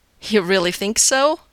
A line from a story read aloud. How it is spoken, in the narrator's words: Again the laughter, and it almost sounds ridiculous